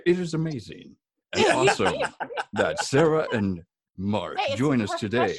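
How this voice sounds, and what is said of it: Announcer voice. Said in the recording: “I turn into announcer voice”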